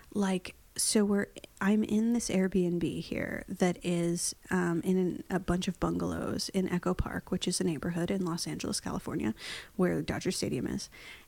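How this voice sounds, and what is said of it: Whispering. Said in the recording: “NPR whispering, or are we might get murdered because it's scary Airbnb whispering ... I'm just sort of automatically whispering.”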